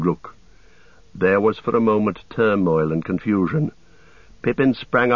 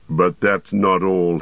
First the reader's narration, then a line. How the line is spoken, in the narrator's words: he snarled